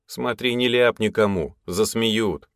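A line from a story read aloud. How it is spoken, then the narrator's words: Snorted. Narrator (Russian): хмыкнул я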